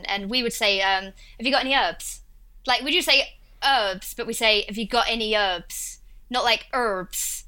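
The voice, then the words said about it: Essex accent, drops H sounds. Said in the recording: “I'm from a place called Essex ... that's what my accent is, like Russell Brand ... we leave out H's with my accent”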